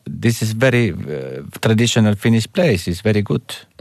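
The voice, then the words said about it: Odd put-on Spanish accent, Russian-sounding. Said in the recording (Finnish): “kukaan espanjalainen ei puhu näin... Puhu vähän niin kuin venälä... Oli erikoinen aksentti.”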